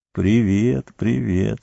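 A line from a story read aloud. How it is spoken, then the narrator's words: Weak voice. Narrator (Russian): слабым голосом произнес он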